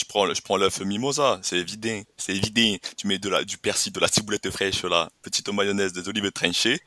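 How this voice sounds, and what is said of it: Put-on southern French accent. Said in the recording (French): “Mais qu'est-ce que c'est que cet accent, quoi? ... Ah, je pars dans le sud, d'accord?”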